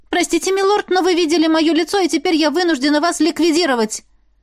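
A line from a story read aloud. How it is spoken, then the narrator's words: Shout. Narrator (Russian): Выкрикнула я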